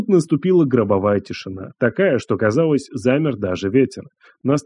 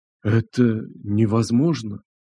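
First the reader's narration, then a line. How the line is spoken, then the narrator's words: Breathless gasp. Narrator (Russian): Выдохнул кто-то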